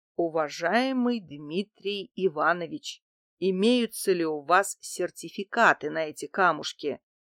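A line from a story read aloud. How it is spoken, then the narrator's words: Unctuous, honeyed voice. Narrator (Russian): елейным голосом спросил у антиквара земляной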